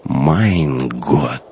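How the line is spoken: Numb-lipped whisper. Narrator (Russian): онемевшими губами прошептал оберштурмбанфюрер

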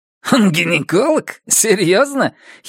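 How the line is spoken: Giggle. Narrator (Russian): хихикнул МДЖ

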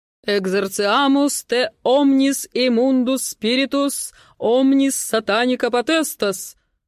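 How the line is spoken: Loud declaration. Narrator (Russian): громко декларирует он

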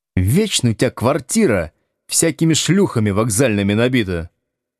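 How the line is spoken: Grumbling. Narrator (Russian): проворчал Слушкин

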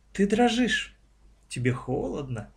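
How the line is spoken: Gentle witch. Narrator (Russian): ласково продолжала ведьма

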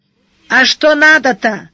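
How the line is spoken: Shout. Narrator (Russian): наконец крикнул хозяин косы

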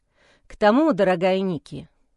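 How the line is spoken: Sorrowful sigh. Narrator (Russian): горестно вздохнул Майло

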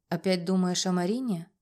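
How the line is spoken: Sighing. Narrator (Russian): вздохнул

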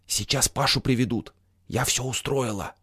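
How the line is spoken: Whisper. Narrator (Russian): Туся шепнула

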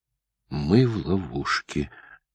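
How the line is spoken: Quiet. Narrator (Russian): тихо проговорила Дженни

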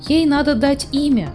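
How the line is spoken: Exclaiming. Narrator (Russian): воскликнула Фрекин Снорк

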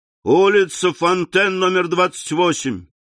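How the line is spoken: Shouted. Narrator (Russian): крикнул кучеру

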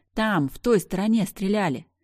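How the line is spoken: Several voices shouting. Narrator (Russian): Они кричали

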